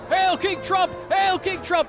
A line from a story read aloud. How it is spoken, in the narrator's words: They're screaming